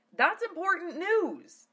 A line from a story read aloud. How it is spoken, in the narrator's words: Lena shouted